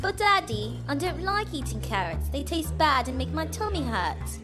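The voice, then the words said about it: Child with an English accent. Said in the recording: “Why does your son have an English accent?”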